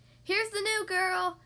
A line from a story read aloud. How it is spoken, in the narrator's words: he announced so loudly